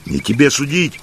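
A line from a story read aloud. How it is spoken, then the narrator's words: Shout. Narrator (Russian): крикнул Матвей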